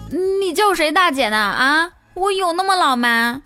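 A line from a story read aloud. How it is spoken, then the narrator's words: Loud scolding. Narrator (Chinese): 大声训斥他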